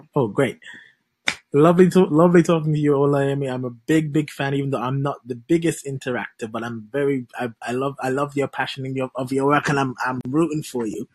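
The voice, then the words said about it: West Indian St. Kitts accent. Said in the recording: “What's this accent? This is another accent I like. ... A fellow West Indian, just like you. ... St. Kitts. ... I like this accent.”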